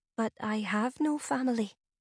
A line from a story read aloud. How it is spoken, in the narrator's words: said Ferlith quietly